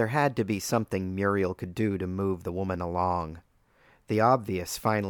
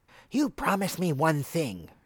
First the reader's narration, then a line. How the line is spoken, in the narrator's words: she croaked